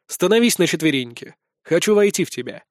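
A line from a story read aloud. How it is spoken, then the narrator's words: Calm, commanding. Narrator (Russian): говорю спокойно, но повелительно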